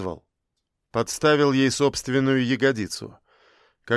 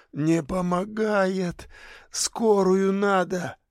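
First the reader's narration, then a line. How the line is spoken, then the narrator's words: Hoarse rasp. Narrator (Russian): Саша прохрипел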